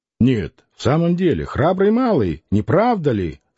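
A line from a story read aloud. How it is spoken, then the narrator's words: Plain. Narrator (Russian): спросил он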